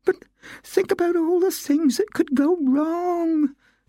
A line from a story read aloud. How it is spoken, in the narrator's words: Nutmeg wailed